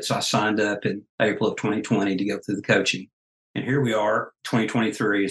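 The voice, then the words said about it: Slight regional accent. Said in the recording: “you both have a little bit of an accent, just a little bit ... loves your accent”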